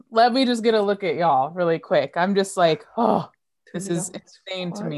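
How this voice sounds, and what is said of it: Excited, giddy speaking voice. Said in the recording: “can you hear the excitement in my voice?”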